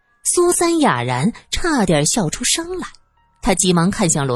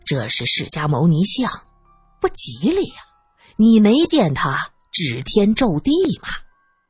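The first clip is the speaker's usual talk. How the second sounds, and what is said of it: Speaking quietly. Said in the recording (Chinese): “小声的”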